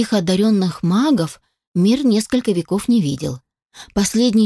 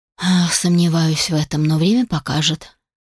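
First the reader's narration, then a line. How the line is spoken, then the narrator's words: Gloomy reply. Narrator (Russian): мрачно ответил Алишер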